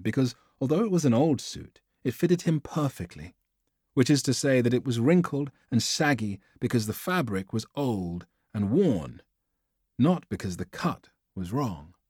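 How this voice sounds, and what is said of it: British accent, poetic reading. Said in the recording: “And what a voice. My God, he does. He reads the prose like poetry. ... a British accent.”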